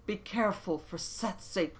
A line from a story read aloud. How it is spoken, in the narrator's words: begged Olmec